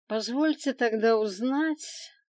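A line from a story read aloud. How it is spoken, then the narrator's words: Almost indifferent dragon's question. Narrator (Russian): почти равнодушно поинтересовался дракон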